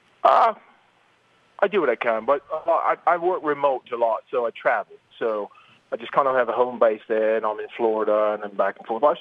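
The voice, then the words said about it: British accent. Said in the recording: “you have a British accent”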